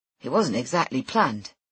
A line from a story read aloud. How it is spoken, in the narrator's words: says Jack